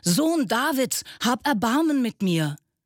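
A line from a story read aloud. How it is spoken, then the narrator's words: Shouting even louder. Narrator (German): Er aber schrie noch viel lauter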